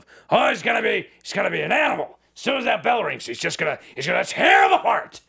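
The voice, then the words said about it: Imitates another person's voice. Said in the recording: “That was, I think, my best Vince impression.”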